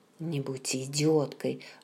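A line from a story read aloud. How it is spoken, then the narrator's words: Irritated whisper. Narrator (Russian): раздраженно прошептал он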